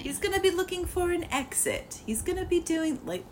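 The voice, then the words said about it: Convincing put-on accent. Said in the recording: “that's a really good accent ... That was beautiful.”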